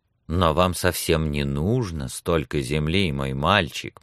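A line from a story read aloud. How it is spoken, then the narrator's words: Soft. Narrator (Russian): мягко сказал Эдмунд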